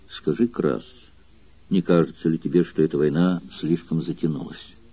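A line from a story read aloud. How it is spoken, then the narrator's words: Soft-voiced question. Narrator (Russian): мягким голосом спросив Краса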